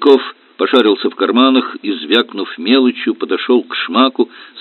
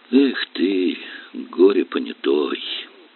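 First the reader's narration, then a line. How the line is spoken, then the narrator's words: Drawn-out drawl. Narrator (Russian): протянул Горелов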